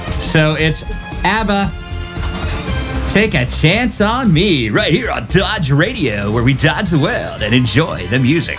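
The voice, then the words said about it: Old 1970s radio DJ voice. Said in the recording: “How do you like my old 70s DJ voice there?”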